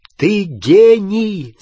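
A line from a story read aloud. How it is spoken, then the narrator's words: Shout. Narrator (Russian): закричал Гарри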